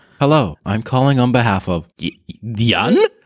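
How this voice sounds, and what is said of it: Attempted French accent. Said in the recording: “Was that supposed to be a French accent? ... It started off trying to be Jan, and then it just fell apart on the second go because I swapped out to the robot voice”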